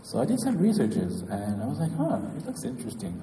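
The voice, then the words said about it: French-accented English. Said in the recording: “sorry, my French accent”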